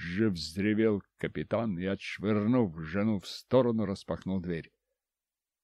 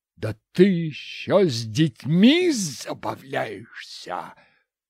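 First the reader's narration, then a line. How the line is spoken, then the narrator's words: Roaring. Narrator (Russian): проревел мужик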